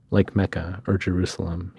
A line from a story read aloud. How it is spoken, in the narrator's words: he said, chuckling to himself